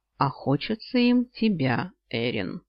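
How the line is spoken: Sudden thoughtful drawl. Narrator (Russian): задумчиво протянул вдруг Кайл

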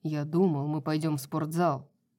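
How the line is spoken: Grumbled. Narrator (Russian): Буркнул он

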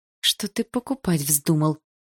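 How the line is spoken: Hissed. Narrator (Russian): прошипела я

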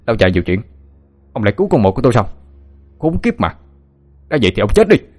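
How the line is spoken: Furious shout through gritted teeth. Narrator (Vietnamese): Kiên Mập nghiến răng căm giận, mồm quát lên

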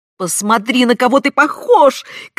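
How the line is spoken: Anguished shout. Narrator (Russian): крикнула она с выражением муки на лице

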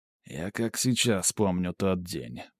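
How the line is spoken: Mutter. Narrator (Russian): пробормотал он

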